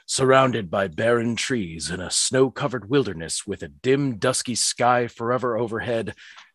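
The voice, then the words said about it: Creepy storytelling voice. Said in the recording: “Let me find my creepy voice.”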